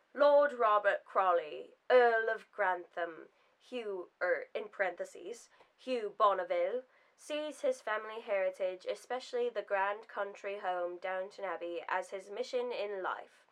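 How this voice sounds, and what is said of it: Put-on British accent. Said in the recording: “Should I read it in my British accent? ... It's so bad.”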